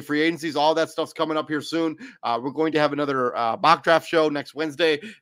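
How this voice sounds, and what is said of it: Rough, unwell-sounding voice. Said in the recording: “I'm still a little bit under the weather, so my voice is kind of on the fritz.”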